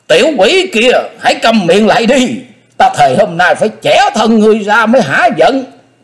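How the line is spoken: Old man's furious scream. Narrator (Vietnamese): lão nhân càng nói giận thét ghê hồn

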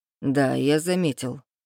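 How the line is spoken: Snorting. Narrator (Russian): хмыкнул зельевар

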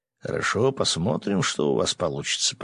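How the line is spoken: Mutter. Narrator (Russian): пробормотал он

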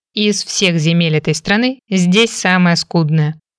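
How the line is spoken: Snorting remark. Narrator (Russian): хмыкнул Фрэнк

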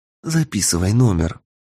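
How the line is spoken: Whispered. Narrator (Russian): прошептала Даша

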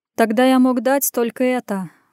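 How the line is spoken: Sigh. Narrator (Russian): вздохнул Лев

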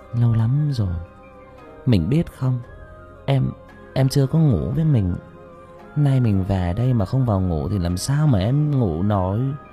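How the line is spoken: Intimate whisper. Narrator (Vietnamese): thì thầm

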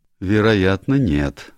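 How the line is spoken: Gloomy agreement. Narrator (Russian): мрачно согласился с нею Дэвид

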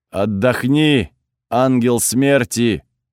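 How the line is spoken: Booming divine voice. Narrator (Russian): прогудел у меня в ушах голос бога воздуха

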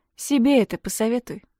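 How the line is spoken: Cold. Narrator (Russian): отвечаю холодно

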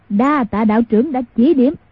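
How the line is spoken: Loud guffawing. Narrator (Vietnamese): Mai Siêu Phong hô hố cười lớn nói

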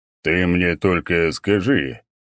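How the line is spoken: Thoughtful old man. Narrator (Russian): задумчиво проговорил старик

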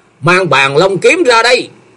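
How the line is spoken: Shouted command. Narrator (Vietnamese): Thông Thiên giáo chủ quát lên

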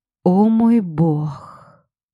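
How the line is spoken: Delighted gasp. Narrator (Russian): Восторженно выдохнула

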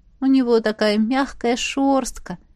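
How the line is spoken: Cooing. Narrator (Russian): проворковала я

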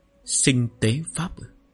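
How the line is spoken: Soft, doubtful. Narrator (Vietnamese): Lý Hạng Bình nghi ngờ, khẽ nói

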